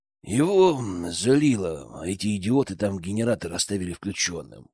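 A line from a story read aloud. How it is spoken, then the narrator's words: Grumbling. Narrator (Russian): буркнул Глеб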